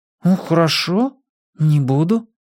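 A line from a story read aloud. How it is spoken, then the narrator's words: Hesitant. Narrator (Russian): неуверенно сказала я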